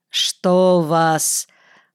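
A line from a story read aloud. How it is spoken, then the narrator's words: Flat, impassive repetition. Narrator (Russian): повторил прежним бесстрастным тоном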